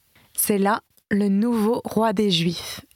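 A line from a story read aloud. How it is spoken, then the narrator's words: Plain. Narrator (French): dit l'un d'eux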